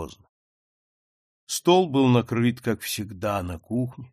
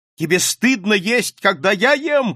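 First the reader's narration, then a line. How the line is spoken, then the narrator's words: Shouting. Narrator (Russian): крикнул он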